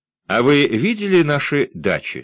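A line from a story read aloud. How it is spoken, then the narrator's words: Plain. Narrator (Russian): спросила она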